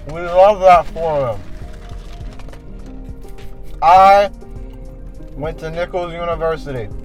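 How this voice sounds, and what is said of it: Loud, yelling voice. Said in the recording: “I'm gonna stop yelling.”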